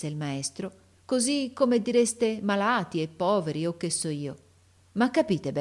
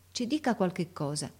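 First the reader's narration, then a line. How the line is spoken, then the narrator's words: Said under breath. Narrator (Italian): De Rossi disse a mezza voce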